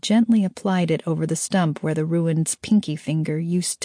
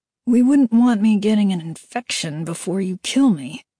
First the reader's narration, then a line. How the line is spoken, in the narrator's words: the ruined said through clenched teeth